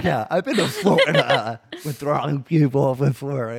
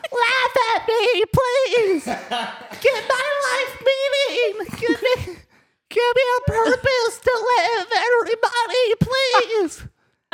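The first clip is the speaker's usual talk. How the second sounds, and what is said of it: Clown character voice. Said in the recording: “I've been working on this impression today. It's Chuckles, the clown.”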